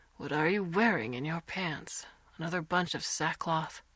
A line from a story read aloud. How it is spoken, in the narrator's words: his uncle says with a sigh